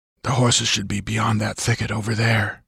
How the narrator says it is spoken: whispered Conan, and his voice might have been a breeze moving through the branches

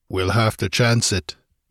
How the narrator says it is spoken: he grunted

